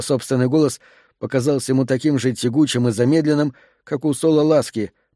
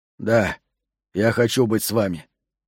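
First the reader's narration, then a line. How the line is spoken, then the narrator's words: Hoarse. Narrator (Russian): хрипло сказал Джентри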